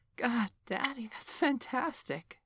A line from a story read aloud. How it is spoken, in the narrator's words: wailed